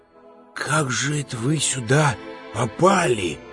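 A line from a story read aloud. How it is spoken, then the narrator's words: Whispered question. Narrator (Russian): шепотом спросил Иван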